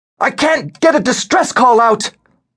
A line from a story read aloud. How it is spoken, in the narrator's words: cried the panicked lieutenant